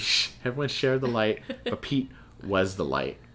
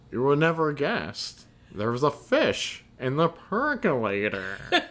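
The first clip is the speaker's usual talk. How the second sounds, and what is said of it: Imitates another person's voice. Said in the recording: “Let's ask ... Go ahead, do your impression.”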